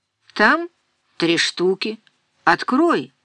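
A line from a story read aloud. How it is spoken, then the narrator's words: Curt, angry. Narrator (Russian): ответил он отрывисто, зло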